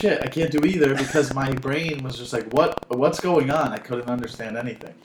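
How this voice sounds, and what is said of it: Usual voice. Nothing is said of it.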